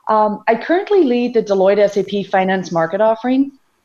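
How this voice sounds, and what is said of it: Irish accent. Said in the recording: “I'm originally from Ireland. For those of you that may detect an accent in me”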